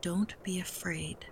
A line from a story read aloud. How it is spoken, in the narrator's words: Tutu said quietly